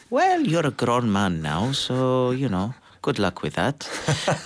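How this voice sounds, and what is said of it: Imitates another person's accent. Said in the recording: “I'm not sure I'm doing his accent. ... That sounds good.”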